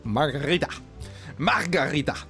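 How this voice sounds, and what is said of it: Put-on Latin accent. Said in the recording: “a Canadian trying to do a Latin accent”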